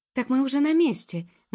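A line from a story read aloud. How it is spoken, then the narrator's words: Exclaimed. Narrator (Russian): воскликнула Джуб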